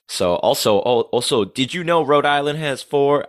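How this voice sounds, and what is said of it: Attempted New England accent sounding Southern. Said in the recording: “That's that's like a Southern accent. I forgot my New England accent.”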